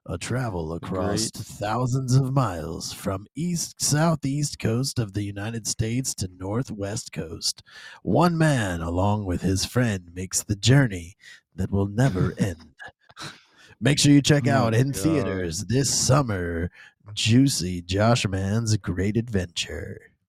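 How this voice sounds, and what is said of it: Put-on movie trailer narrator voice. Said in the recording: “that's as long as I can do that voice before I start dying.”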